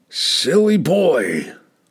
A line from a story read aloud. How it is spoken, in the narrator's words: Brunner growled